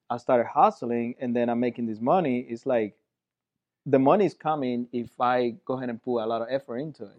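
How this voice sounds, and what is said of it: Slight accent. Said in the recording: “you have a bit of an accent ... Just a little bit ... little bit of an accent”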